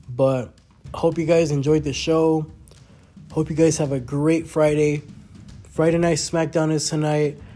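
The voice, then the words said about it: Congested, weird-sounding voice. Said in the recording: “I am a little bit congested today, so my voice is kind of like weird”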